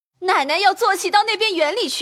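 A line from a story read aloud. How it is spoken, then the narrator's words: Called out from inside. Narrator (Chinese): 里头喊说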